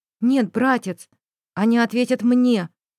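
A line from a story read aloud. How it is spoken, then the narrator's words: Calm remark. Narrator (Russian): спокойно заметила Динара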